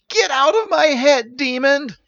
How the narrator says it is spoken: yelled Steven

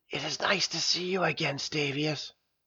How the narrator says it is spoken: whispering

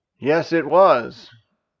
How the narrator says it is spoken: agreed Orvin, a little too loudly

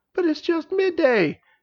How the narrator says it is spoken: exclaimed Princess

